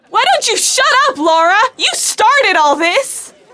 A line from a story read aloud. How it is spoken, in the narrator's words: screamed Sarah